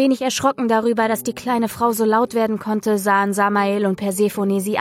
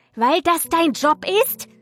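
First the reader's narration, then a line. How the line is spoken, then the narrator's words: Shrieking. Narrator (German): kreischte die Blondine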